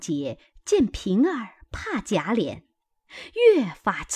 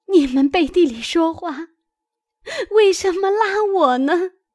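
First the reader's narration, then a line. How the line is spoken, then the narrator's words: Angry, crying. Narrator (Chinese): 平儿气切……哭道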